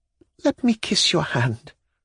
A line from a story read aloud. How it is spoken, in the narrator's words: faltered